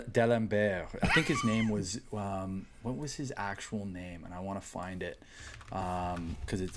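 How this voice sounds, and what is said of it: Usual voice. Nothing is said of it.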